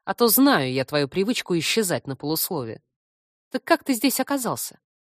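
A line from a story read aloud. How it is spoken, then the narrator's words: Snide reminder. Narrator (Russian): ехидно напомнила я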